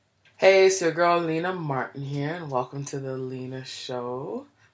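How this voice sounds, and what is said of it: Hoarse, froggy voice. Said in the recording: “I'm still fighting this cold. My voice is terrible. I'm always coughing and clearing my throat. ... if my voice sounds a little froggy”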